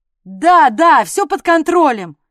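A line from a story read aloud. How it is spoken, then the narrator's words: Nearly shouted. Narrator (Russian): Почти выкрикнула Инга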